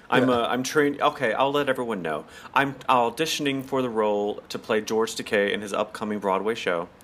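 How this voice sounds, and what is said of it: Unusually deep voice. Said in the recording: “my rather deep voice”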